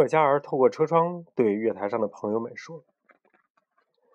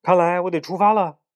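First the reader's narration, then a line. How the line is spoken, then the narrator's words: Loud. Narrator (Chinese): 站长大声说道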